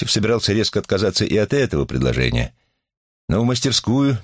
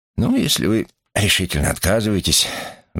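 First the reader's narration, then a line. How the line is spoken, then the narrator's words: Sighing. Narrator (Russian): вздохнул Василий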